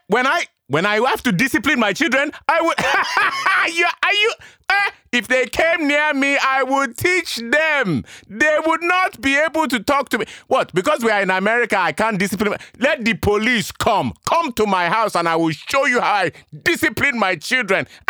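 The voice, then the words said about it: Put-on Nigerian accent. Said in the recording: “Nigerians don't do anything by halves ... I've got my English accent, I'm talking to you like this, but if it was my mom or my uncles, everything I would be saying would be like this.”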